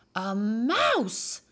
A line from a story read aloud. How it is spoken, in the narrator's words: bellowed